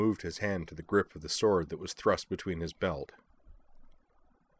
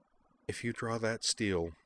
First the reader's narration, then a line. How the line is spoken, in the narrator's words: she said evenly